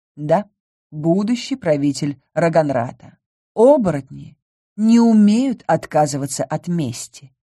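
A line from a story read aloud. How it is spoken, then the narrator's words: Plain. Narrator (Russian): ответил Гриравир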